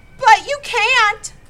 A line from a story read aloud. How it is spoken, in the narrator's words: Joel wailed